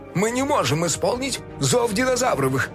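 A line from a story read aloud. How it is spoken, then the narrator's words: Panicked wail. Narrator (Russian): завопил док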